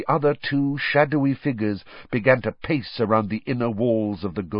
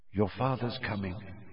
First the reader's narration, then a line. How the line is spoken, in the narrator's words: she said quietly